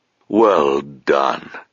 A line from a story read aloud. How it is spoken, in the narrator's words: said Abhorsen, his voice deep and familiar, lending comfort and warmth like a favourite childhood toy